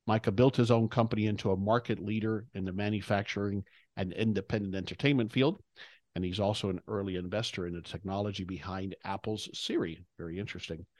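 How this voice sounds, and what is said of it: Great podcast voice. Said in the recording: “you have a great podcast voice”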